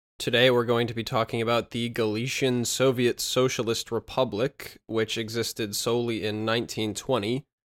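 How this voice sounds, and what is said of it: Dry voice. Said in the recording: “my voice is a bit dry on this episode ... it really tends to dry me out”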